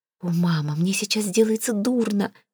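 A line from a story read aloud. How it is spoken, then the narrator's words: Moaning. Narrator (Russian): простонала Виолетта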